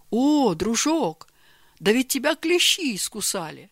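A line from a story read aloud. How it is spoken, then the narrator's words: Exclamation. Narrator (Russian): воскликнул Георгий Иванович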